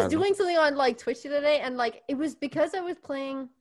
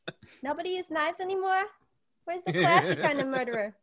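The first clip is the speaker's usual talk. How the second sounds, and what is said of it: Old-time 1940s Brooklyn accent. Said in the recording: “everybody down in Rapture has this like 1940s, 1950s ... I was mimicking them ... That was just that accent ... To Brooklyn.”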